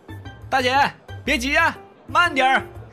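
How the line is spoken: Amused teasing call. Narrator (Chinese): 凤耀不由得乐了，还故意在身后喊道

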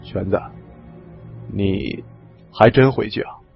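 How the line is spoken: Quiet question. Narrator (Chinese): 李存壮轻声问我

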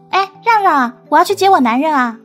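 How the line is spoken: Shouting. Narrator (Chinese): 米开朗 一边嚷着说

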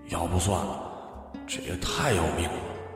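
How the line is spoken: Inner muttering. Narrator (Chinese): 他心里嘀咕

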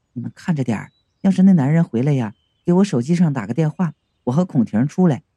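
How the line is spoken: Low voice. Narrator (Chinese): 低声和我说

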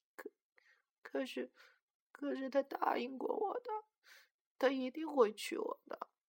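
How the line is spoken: Murmuring. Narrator (Chinese): 她喃喃的说

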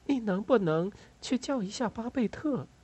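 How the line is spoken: Soft, apologetic. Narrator (Chinese): 他轻声说道

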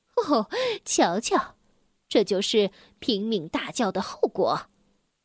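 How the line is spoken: Laughing mother rabbit. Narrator (Chinese): 兔妈妈笑着回答

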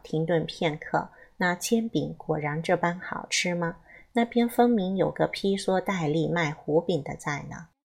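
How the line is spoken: Faint amused smile. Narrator (Chinese): 林燕淡淡的笑道

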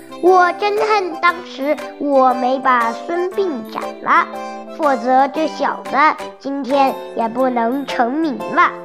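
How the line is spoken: Sighing. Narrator (Chinese): 庞涓叹道

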